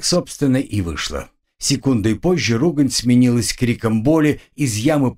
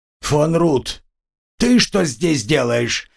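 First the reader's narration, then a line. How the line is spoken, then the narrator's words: Raven barking angrily. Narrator (Russian): рявкнул на меня ворон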